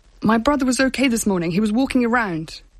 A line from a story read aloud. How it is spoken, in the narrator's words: he said, his voice cracking with fury